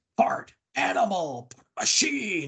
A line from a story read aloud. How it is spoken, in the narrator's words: yelling